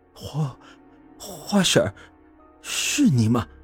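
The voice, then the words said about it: Trembling, shaky voice. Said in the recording (Chinese): “用颤抖的声音说道”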